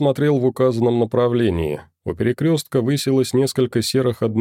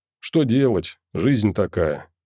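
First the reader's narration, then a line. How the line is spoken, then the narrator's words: Sad sigh. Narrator (Russian): печально вздохнул я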